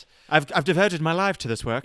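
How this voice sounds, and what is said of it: Strange foreign accent. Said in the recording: “You need the doctor to be some strange accent”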